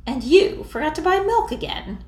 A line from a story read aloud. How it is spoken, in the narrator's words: Annie said haughtily